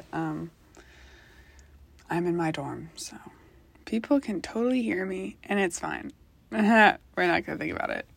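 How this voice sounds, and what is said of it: Quiet, hushed speaking. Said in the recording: “sorry I'm talking so quiet”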